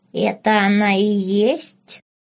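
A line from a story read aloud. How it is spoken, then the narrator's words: Creaky old man's voice. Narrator (Russian): проскрипел старичок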